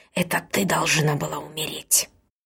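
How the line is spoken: Hissing. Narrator (Russian): она шипела

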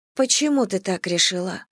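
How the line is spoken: Sad question. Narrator (Russian): спросила Бет, грустно глядя

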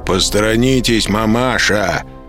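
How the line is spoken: Rough, rude. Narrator (Russian): грубо произнес

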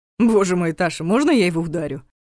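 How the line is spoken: Irritated chuckle. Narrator (Russian): хохотнул Дементьев, чувствуя, что начинает раздражаться

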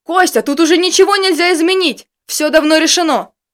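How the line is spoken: Yelling. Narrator (Russian): Заорал Арнольд

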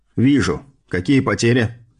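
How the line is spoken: Very calm question. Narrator (Russian): спросил максимально спокойно

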